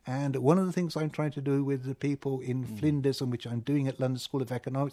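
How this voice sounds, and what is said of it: Hard-to-place accent, emphatic stressing. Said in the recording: “What is your accent? I can't quite place it. ... had a tendency to emphasise things. And I sort of picked this up, and I do it even more.”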